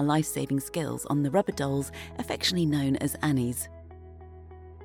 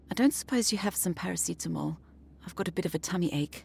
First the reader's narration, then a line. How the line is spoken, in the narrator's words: she asked quietly